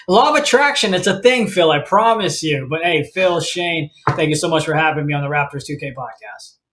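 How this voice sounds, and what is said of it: Polished radio announcer voice. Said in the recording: “You're such a pro, even from like the first 5 seconds of just hearing your radio voice”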